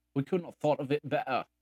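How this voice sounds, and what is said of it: Bad put-on British accent. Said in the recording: “It's my bad British accent.”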